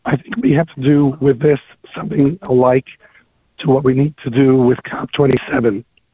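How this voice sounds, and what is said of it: Hoarse voice. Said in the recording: “I'm a little hoarse.”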